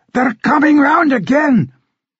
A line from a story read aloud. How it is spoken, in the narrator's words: King Robbie bellowed